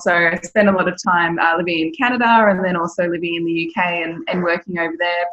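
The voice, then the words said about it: Australian accent. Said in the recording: “you can probably tell from the accent, I'm from Australia, so from the great land down under in Sydney”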